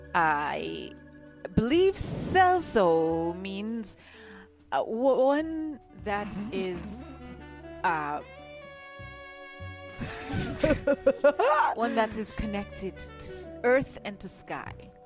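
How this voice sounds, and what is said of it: Accent with distinctive S sounds. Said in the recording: “you do something with your S's, too... Some people say it is an accent.”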